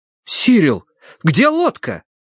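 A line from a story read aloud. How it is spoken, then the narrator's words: Exclaiming. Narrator (Russian): воскликнул Терренс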